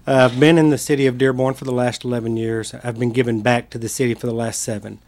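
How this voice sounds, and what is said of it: Texan accent. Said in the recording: “I'm originally from the state of Texas, as you can probably tell by my accent.”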